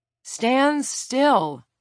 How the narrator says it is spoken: Lila shouted

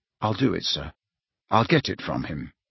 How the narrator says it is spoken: he said earnestly

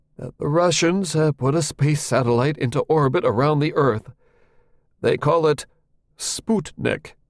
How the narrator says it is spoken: said in that trembly voice

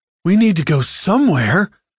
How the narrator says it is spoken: Sari yelled in Deck's ear

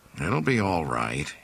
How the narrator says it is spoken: he said quietly

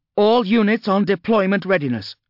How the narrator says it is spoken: shouted Judge Orsino

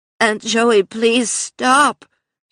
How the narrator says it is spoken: she cried

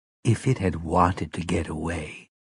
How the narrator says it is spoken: Mia said quietly

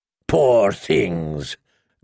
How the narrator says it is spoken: growled the slaver

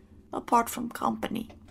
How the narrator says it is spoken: he muttered

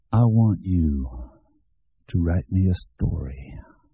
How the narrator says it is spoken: Shooter said calmly

